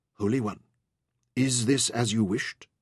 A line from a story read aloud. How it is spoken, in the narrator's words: she whispered humbly